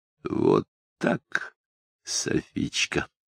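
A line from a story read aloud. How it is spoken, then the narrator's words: Quiet gurgling voice. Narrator (Russian): тихим клокочущим голосом произнес Шамиль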